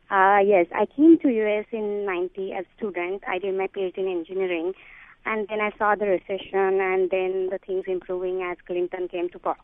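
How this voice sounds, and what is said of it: Indian accent. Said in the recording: “You are from India originally? ... from my accent, you must have guessed it”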